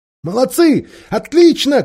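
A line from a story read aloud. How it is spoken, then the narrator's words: Shouting. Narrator (Russian): кричала Джилл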